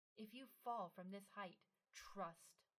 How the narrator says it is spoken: she said fiercely

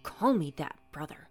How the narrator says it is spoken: Luthbert hissed

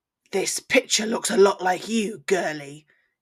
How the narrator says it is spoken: he growled

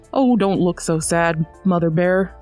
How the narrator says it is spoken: said he

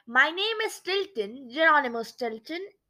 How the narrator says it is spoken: I said

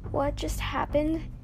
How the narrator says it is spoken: He asked weakly

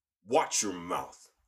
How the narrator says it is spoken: Conniger snapped

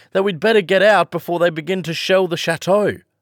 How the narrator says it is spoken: shouted

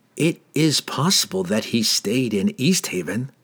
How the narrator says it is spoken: Glensather replied in the same whispered tones

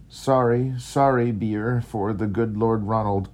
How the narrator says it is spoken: cried the old woman

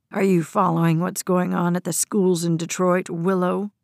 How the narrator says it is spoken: General's voice was low, menacing, like a snarling dog warning another animal to keep its distance

